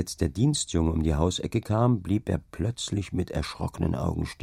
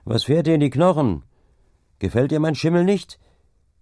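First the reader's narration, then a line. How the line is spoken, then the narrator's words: Calling out. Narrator (German): rief der Deichgraf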